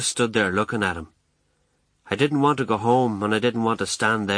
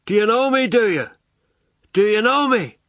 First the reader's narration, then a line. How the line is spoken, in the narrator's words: shouted over